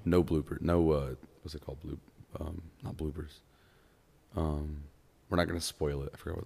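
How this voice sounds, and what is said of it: Hoarse, strained voice. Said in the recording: “my throat hurts... my voice is gone”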